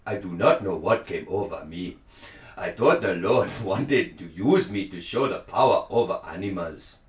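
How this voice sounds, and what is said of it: Put-on Ghanaian accent. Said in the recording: “give me a Ghanaian accent ... I don't know whether you're doing Ghanaian or Wakandan.”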